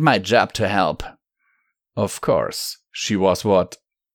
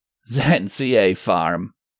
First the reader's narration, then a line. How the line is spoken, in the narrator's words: the Steel Ranger chuckled